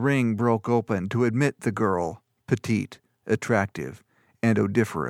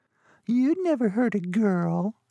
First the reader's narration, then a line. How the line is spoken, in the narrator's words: laughed